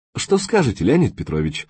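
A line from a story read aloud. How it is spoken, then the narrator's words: Calm question. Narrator (Russian): спокойно спросил Максим Викторович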